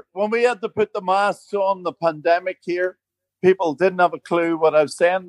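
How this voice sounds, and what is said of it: Strong Northern Irish accent. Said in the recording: “your accent's gorgeous ... Your accent is absolutely gorgeous ... your accent is still pretty strong for being in Australia”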